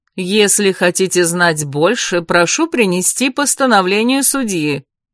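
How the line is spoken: Loud, landlady. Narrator (Russian): громко произнесла хозяйка

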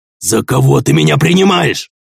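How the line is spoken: Growl, centurion. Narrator (Russian): прорычал сотник

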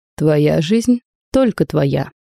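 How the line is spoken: Plain. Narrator (Russian): ответил граф Коц

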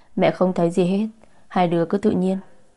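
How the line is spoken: Laughing. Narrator (Vietnamese): Bà Lam bật cười

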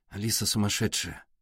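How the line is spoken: Mumbling. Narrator (Russian): пробормотал Артур

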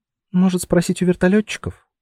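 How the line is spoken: Timid suggestion. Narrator (Russian): робко предложила Анюта

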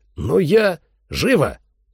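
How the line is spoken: Barking shout. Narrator (Russian): рявкнул Эрл

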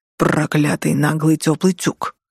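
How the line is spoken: Hissing close to ear. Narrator (Russian): Прошипела у меня над ухом

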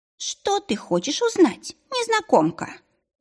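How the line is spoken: Brisk, upbeat question. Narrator (Russian): спросил бодро

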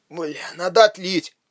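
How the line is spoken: Muttered. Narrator (Russian): пробормотал Рейнер

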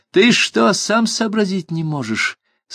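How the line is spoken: High shrill voice. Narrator (Russian): сказал он своим высоким пронзительным голосом

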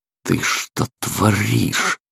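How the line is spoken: Grumbling. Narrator (Russian): проворчал

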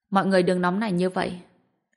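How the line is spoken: Smiling, calm. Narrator (Vietnamese): gã tóc buộc mới mỉm cười nói

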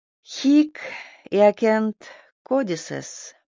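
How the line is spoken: Absent-minded purring murmur. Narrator (Russian): промурлыкала Магдалена себе под нос, витая в своих мыслях

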